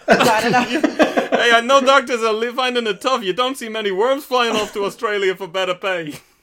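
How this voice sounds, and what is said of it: Exaggerated comedic impression voice. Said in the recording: “that impression ... I've heard your accents on the podcast many times”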